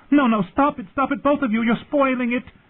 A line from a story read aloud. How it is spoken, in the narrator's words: Sansa was shrieking